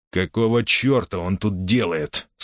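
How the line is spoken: Through gritted teeth. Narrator (Russian): сквозь зубы процедил Борис

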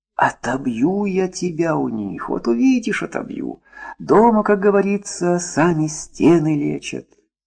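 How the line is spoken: Whispered. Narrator (Russian): Таисия Никитична наклонилась к Маше и прошептала

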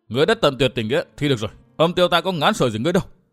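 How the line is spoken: Fierce urgent shout. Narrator (Vietnamese): quát khẩn

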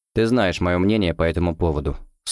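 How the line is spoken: Dry reply. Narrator (Russian): сухо ответил Гуров

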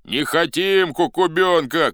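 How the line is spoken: Shout. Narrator (Russian): кричала другая

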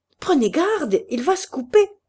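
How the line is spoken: Shouted. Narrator (French): criait Delaherche

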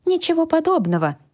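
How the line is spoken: Indignant reply. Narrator (Russian): возмущенно ответила я

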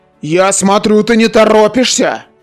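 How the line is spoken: Barking shout. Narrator (Russian): гаркнул Индрик

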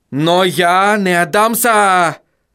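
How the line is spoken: Shouting. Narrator (Russian): закричал он

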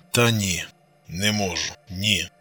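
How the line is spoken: Breathy exhale. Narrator (Russian): выдохнул Костик

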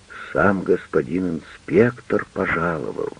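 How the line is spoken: Shocked mutter. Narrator (Russian): потрясенно пробормотал

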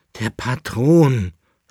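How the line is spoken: Groan. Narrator (German): stöhnte der Leibnitzer

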